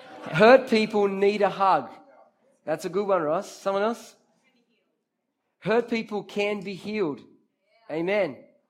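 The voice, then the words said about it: Brazilian accent. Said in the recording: “it's a Brazilian accent”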